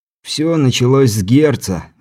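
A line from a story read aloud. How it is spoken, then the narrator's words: Sighing. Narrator (Russian): вздохнул Александр Дьяк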